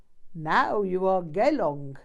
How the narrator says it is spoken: he chuckled

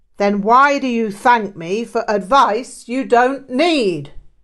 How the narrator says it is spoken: Rinpoche barked

